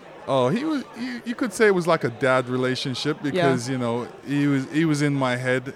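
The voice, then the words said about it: Blended British and Canadian accent. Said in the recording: “Your accent is a little bizarre, I have to say, because you're kind of British. You're kind of Canadian. ... you don't really have a specific accent, like you're from one or the other. It's kind of like blended together.”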